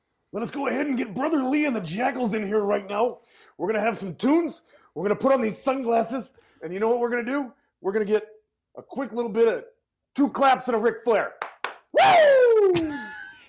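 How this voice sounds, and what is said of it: Pro wrestling announcer character voice. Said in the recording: “jump into your wrestler voice ... do your wrestling voice”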